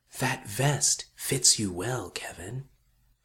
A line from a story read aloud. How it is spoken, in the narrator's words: It whispered